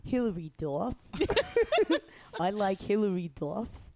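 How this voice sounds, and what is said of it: Put-on Boston accent. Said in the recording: “Do your Boston accent, please. ... That's good. ... More nasally.”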